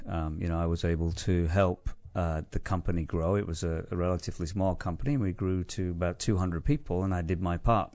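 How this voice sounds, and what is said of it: English Manchester accent. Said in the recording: “Sounds like you have an accent that's from, what, England? ... I grew up in Manchester in the UK”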